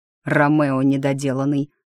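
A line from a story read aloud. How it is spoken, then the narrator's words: Grumbling through teeth. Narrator (Russian): ворчливо цедит, сплевывая сквозь зубы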